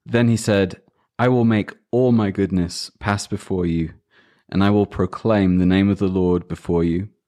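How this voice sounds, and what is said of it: Non-American accent. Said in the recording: “I don't know where you got that crazy accent ... I was born with it ... It's certainly not an American one”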